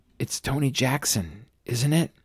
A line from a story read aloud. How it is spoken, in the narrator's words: She whispered